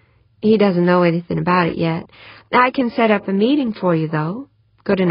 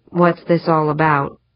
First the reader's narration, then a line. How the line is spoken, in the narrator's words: asked, almost sullenly